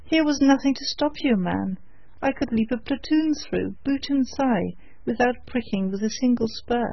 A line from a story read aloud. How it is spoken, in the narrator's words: the trooper cried hastily